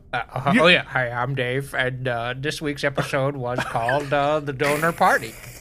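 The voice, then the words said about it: Impression of Dave from Dave's World. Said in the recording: “You gotta give us your flawless Dave ... my Dave is also my Murphy Brown”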